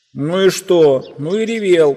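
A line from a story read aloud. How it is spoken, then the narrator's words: Shout. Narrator (Russian): прокричал Дигори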